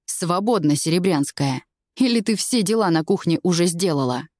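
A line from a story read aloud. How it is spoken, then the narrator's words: Rude. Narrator (Russian): Грубо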